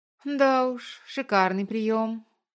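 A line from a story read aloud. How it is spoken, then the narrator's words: Hesitant drawl. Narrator (Russian): помедлив протянула она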